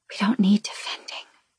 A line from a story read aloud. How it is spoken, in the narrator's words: she whispers